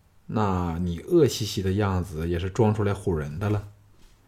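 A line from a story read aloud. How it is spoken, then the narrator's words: Sorrowful, rueful. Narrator (Chinese): 项少龙感到这两句话内所包含的无限心酸，心中暗叹，说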